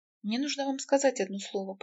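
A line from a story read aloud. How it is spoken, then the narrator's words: Whispered. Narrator (Russian): прошептала она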